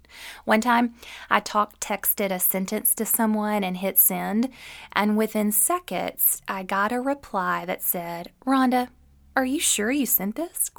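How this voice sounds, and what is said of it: Southern American accent. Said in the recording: “my Southern accent, often doesn't translate well to the screen”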